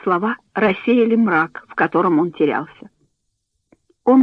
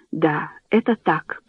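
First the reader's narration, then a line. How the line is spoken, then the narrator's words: Whisper. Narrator (Russian): прошептал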